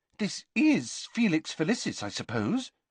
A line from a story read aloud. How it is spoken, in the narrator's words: said Hermione anxiously